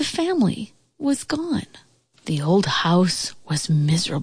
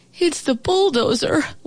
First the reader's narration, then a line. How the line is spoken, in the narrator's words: wailed the old house